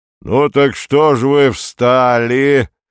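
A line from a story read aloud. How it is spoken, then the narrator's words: Deep rolling voice. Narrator (Russian): глубоким раскатистым голосом сказал вожак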